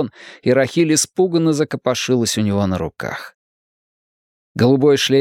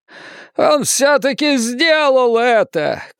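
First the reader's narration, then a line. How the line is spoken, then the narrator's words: Shouting. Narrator (Russian): кричал Сол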